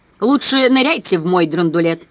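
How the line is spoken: Man shouting. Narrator (Russian): прокричал мужчина

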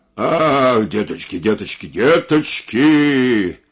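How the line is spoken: Muttering crutch. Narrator (Russian): забормотал костыль

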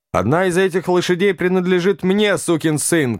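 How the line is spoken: Shouting. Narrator (Russian): крикнул он

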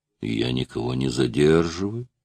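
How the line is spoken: Quiet and cheerful. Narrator (Russian): проговорил он тихо и весело

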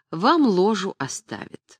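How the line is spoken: Gentle, affectionate. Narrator (Russian): А дамам ласково говорила

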